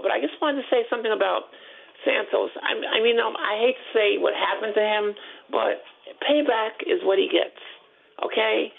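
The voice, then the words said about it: Slightly sore, rough voice. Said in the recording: “I have a little sore throat”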